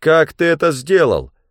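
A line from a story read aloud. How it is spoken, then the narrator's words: Shouted. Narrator (Russian): крикнул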